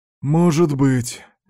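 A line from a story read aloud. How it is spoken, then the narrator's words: Detective's uncertain mutter, sigh. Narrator (Russian): неуверенно пробормотал детектив и тяжело вздохнул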